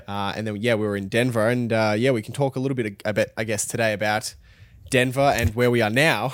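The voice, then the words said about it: Sick-sounding voice. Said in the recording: “I'm choking through this ... I'm still a little bit sick. I'm sure you can probably kind of hear it in my voice.”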